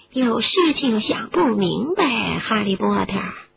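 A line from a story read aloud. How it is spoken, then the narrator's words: Small voice in ear. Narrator (Chinese): 一个小声音在哈利的耳边说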